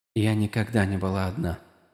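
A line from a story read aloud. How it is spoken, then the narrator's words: Whisper. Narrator (Russian): прошептала часть ее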